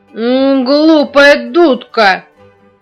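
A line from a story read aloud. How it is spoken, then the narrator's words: Girl's angry shout. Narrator (Russian): сердито закричала девочка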